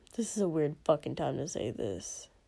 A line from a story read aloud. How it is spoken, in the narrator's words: muttered